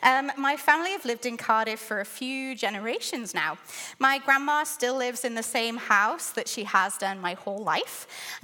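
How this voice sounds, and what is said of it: Welsh accent. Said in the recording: “if you're struggling to place my accent, I am from the UK. I'm from Cardiff in Wales.”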